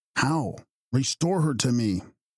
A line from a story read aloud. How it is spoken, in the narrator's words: exclaimed Walter